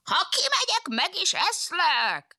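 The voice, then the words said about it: Fox imitating a wolf's voice. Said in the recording (Hungarian): “A róka a farkas hangját utánozva felelt ki neki.”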